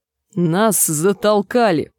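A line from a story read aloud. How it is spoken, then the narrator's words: Growled. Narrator (Russian): прорычала Гленда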